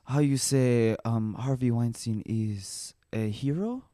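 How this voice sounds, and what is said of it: Poor put-on French accent. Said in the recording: “my French accent, very bad ... how you do the French accent. Like Asian. It got like Asian.”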